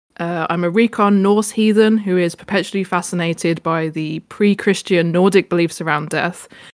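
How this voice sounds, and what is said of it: British accent. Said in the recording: “as you might be able to tell from the accent, I'm from the UK.”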